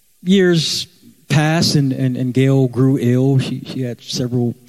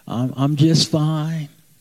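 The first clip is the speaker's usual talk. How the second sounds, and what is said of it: West Virginian southern drawl. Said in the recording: “She had that West Virginian southern drawl.”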